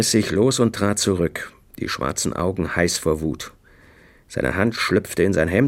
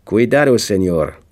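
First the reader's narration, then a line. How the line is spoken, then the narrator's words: Sharp, mocking. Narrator (German): sagte er scharf und höhnisch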